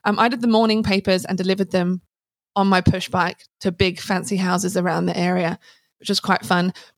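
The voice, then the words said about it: Non-Australian, English accent. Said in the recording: “obviously that isn't an Aussie accent”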